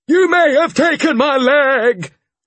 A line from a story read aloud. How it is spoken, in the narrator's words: he shouted from the landing